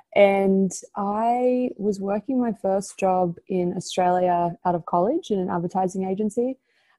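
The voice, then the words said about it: Australian accent. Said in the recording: “I'm Australian, if you can't tell by my accent.”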